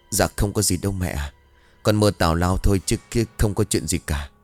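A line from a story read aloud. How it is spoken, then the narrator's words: Relieved sigh. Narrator (Vietnamese): thở dài nhẹ nhõm, bảo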